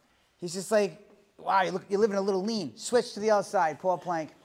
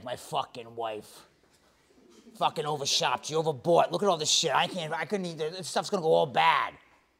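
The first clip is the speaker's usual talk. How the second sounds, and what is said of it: Imitates another person's voice. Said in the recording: “this is my best Joe's impersonation.”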